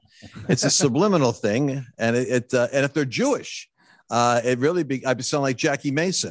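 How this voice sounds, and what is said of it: New York accent. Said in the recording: “You have kind of an accent. It seems like you're from the East somewhere... the Northeast. It's a New York accent”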